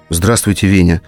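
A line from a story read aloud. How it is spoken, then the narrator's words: Calm. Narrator (Russian): сказала спокойно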